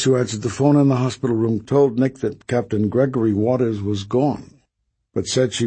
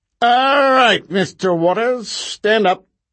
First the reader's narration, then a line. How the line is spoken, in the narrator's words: Wendell Waxmo barked finally